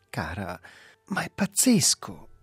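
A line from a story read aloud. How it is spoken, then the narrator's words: Exclaiming, regaining composure. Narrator (Italian): esclamò lui, riprendendosi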